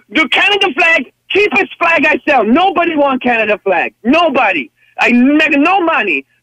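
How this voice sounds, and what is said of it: Hard-to-place foreign accent. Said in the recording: “Couldn't quite nail down that accent. ... No, it was all over the place.”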